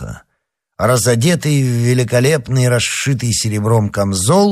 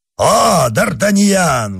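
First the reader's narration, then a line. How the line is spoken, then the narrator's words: Exclaimed. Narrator (Russian): воскликнул он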